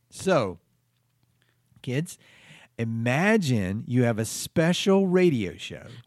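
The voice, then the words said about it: Condescending voice for talking to children. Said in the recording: “Don't talk down to them. You're doing a voice.”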